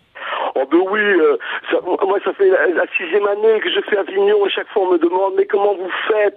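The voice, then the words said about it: Belgian French accent. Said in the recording (French): “humoriste belge ... avec cet accent-là qui nous plaît”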